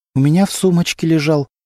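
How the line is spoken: Trembling voice. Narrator (Russian): дрожащим голосом ответила Антонина

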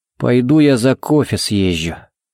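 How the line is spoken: Grumbled mutter. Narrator (Russian): буркнул он

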